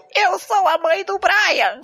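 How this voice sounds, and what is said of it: Man imitating a woman's voice. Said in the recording (Portuguese): “dubladores homens fazendo voz de mulher, então fica engraçado”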